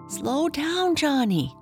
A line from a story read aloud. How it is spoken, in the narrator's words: Janie cried